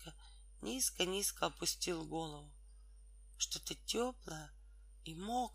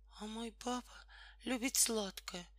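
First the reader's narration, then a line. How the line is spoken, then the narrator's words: Unhappy whisper. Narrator (Russian): несчастным голосом прошептала Тома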